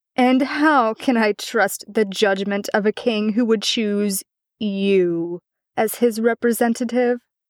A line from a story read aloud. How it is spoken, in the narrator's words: Arthur burst out laughing, and when he had calmed down, said